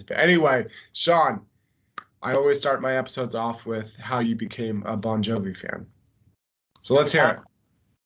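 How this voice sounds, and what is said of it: Congested, slightly mumbling voice. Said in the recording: “I just got over a sinus infection, so my voice is kind of congested, and I might mumble here or there”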